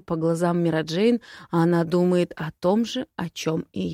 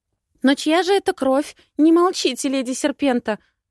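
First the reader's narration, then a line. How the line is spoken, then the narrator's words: Exclamation. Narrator (Russian): воскликнула Вера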